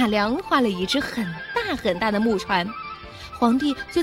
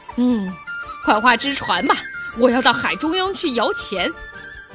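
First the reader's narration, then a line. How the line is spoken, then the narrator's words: Giggling, eager. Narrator (Chinese): 嘻嘻地笑了起来，急巴巴地对马良说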